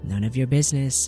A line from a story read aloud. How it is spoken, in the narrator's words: he says roughly